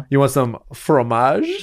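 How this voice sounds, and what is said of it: Put-on French accent. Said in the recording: “I can't even do a French. Actually, I can't even do a fucking a French accent.”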